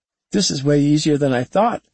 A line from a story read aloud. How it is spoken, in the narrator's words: David exclaimed